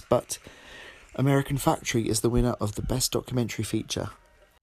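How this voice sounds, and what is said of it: Tired, low late-night voice. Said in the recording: “I'm beginning to sound a little bit tired, aren't I?... my voice gets lower and lower as the night goes on”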